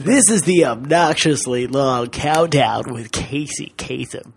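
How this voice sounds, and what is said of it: Imitates a radio countdown host voice. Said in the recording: “You sound like Casey Kasem.”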